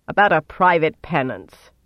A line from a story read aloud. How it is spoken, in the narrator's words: Sylviana said irritably